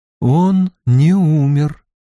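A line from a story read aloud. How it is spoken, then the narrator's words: Slow. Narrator (Russian): медленно сказала Морейн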